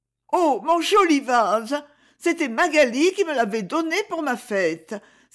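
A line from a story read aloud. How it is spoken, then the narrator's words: Dismayed exclamation. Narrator (French): s'écria Isabelle, consternée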